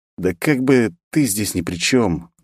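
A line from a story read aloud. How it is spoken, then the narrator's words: Sad wry chuckle. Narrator (Russian): грустно усмехнулся я в ответ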